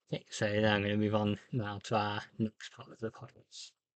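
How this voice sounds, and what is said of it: British accent. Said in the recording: “my British voice”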